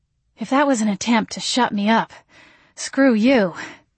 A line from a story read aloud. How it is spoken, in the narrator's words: I panted